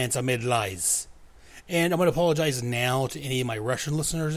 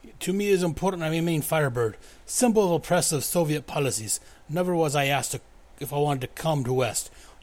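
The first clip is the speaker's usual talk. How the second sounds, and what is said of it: Poor put-on Russian accent. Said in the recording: “I apologize for my horrendous Russian accent. I do Russian accents like I do all other accents poorly.”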